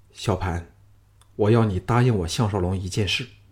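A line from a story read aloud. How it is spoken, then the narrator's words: Sudden low voice. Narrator (Chinese): 项少龙忽然低声说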